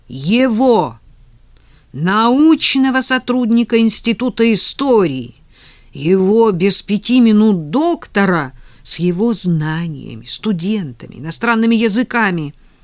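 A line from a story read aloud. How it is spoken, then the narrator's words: Shouting. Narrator (Russian): Так примерно и прокричал он Наде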